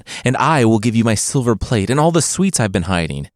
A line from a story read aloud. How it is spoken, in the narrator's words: said the other